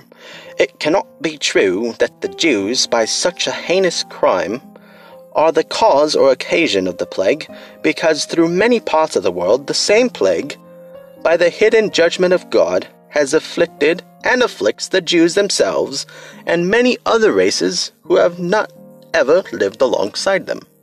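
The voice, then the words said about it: Deliberately bad put-on accent. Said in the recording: “That was a terrible accent.”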